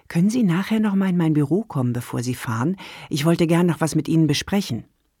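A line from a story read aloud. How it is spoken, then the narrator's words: Quiet speech. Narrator (German): leise sagte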